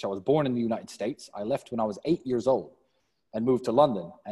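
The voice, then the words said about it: Mixed American and British accent. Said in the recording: “You could tell from my accent, I'm part American and part British.”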